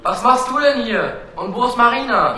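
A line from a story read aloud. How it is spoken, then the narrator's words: Calling back. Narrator (German): Kire rief zurück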